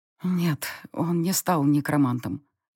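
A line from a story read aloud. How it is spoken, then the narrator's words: Barely audible. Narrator (Russian): едва слышно сказала я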